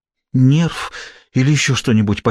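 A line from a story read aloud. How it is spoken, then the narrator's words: Breathless near-whisper. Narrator (Russian): почти выдохнула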